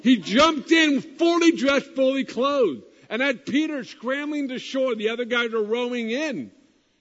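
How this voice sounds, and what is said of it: Excited yelling. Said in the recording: “sorry I'm yelling so much. I get excited.”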